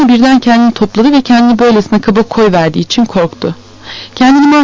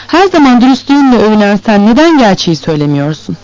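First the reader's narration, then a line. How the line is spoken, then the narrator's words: Sweet voice, suppressed anger. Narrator (Turkish): Vronski içinde kabaran öfkeyi tutarak tatlı bir sesle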